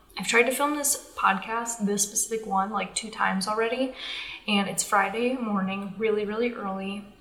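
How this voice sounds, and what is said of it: Strained, fading voice. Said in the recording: “My voice is going away from talking so much”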